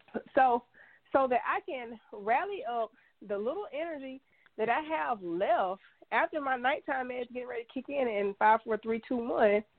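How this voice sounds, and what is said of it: Congested voice from a cold. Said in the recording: “I have a cold, I'm congested”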